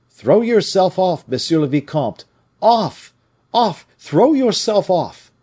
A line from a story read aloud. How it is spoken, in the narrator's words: Every Picard who saw this unfortunate young man rushing on to meet certain death shouted in the loudest manner